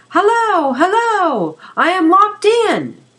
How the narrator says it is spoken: yelled Marco at the topmost power of his lungs

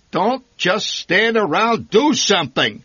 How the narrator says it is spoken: he bellowed

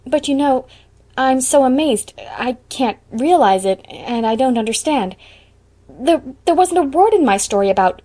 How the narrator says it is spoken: Anne choked a little over the word

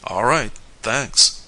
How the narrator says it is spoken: answered Tom dryly

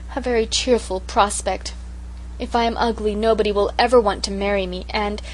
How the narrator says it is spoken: poor Sarah sighed

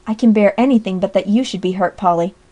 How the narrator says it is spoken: exclaimed

